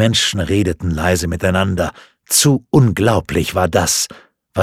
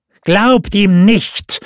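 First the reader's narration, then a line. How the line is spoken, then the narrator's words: Call out. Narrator (German): rief der Obere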